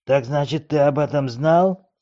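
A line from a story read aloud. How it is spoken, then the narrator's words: Hiss. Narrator (Russian): прошипел он старому Бобу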